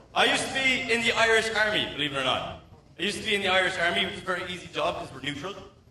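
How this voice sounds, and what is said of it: Irish accent. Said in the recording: “he's a cute-ass Irish accent ... this is a real Irish accent.”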